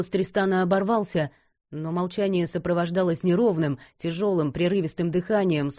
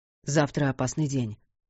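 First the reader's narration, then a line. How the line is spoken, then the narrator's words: Mutter. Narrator (Russian): пробормотал он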